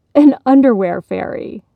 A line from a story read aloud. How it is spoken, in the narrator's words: asked with a laugh